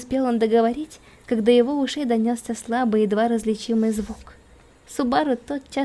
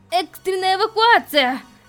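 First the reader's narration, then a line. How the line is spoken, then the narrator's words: Shout. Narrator (Russian): выкрикнул он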